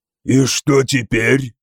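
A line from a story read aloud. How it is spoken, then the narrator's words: Low growling question. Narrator (Russian): спросил Стяпа низким рычащим голосом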